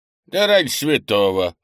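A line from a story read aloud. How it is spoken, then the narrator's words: Snorting old man. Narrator (Russian): хмыкнул старый Лун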